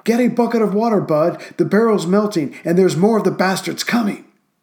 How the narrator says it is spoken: the 21-year-old gunner yelled

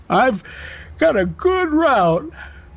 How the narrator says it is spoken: he said, yawning

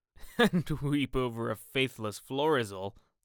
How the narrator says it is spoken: said Lord Henry, laughing

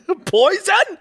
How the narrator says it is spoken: He yelled incredulously

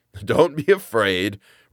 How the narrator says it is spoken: replied the judge, laughing

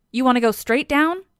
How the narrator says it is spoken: Heracles asks

